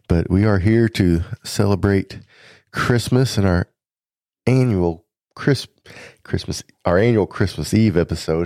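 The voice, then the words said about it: Congested voice from a cold. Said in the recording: “if you could probably tell in my voice, got a little bit of a cold”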